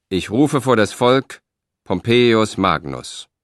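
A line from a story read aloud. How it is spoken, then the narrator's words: Theatrical proclamation. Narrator (German): Gabinius rief theatralisch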